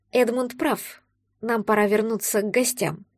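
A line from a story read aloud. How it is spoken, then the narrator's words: Girl speaking quietly. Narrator (Russian): тихо сказала девушка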